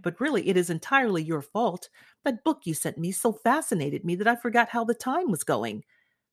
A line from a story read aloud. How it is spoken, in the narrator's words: he cried